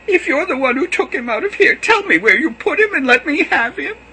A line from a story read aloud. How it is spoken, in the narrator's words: she cried